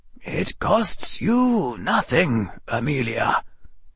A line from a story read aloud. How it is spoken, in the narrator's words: the old wizard said quietly